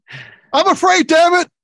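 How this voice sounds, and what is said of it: Imitates another person's voice. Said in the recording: “my Sylvester Stallone impression of Rocky III”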